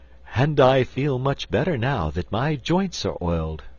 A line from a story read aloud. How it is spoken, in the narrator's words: returned the Tin Woodman with a sigh of pleasure